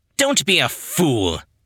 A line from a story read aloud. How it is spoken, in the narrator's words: Yannick snapped